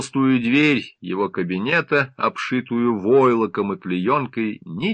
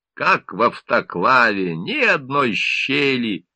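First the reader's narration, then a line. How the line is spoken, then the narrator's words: Grumbling. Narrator (Russian): заворчал Песков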